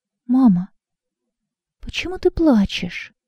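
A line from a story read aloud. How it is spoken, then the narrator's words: Timid question. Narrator (Russian): робко спросил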